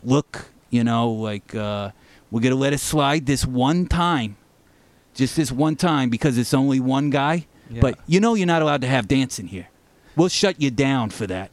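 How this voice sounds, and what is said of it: Put-on New York accent. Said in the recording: “Your accent is great, by the way. ... I have, you know, New York.”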